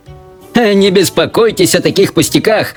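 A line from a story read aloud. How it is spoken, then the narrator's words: Shouting. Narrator (Russian): кричал мистер Уонка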